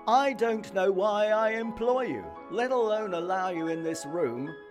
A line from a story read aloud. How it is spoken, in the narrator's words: roared the gaffer